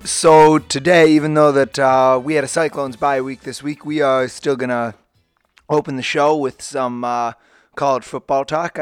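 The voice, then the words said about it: Slightly sick-sounding voice. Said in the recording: “I apologize for my voice. I think I'm getting a little bit sick here”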